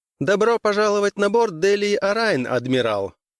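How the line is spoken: Clear high, almost serious. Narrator (Russian): Чистым высоким голосом произнесла девушка почти серьезно

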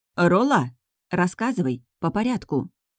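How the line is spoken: Cold. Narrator (Russian): холодно повторила я

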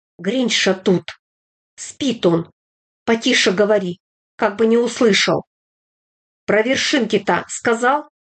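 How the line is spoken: Whispering. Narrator (Russian): Петька зашептал

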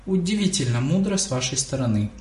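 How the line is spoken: Plain. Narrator (Russian): ответила МакГонагал

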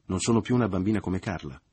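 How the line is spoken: Resentful, moved mother. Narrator (Italian): continuò la madre in tono risentito e commosso

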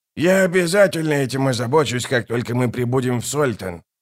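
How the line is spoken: Mutter. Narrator (Russian): пробормотал он

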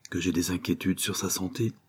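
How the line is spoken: Quiet voice. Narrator (French): dit tout bas

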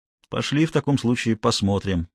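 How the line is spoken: Gloomy. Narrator (Russian): мрачно предложил Гуров

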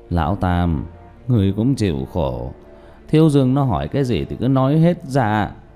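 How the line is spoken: Sighing. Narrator (Vietnamese): Diệp Bá thở dài

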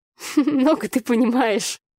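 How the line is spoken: Laughing. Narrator (Russian): засмеялась я

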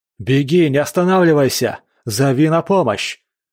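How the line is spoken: Shouted back. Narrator (Russian): крикнул Синде в ответ

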